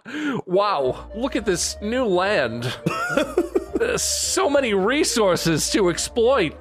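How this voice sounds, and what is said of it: Bad Christopher Walken impression. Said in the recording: “that's a really bad Christopher Walken impression”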